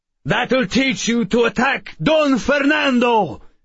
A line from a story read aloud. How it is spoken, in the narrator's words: the man shouted